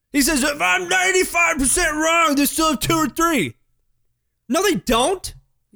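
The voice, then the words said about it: Angry yelling. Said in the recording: “Will you stop yelling? ... I'm mad. I got riled up ... stop yelling at me”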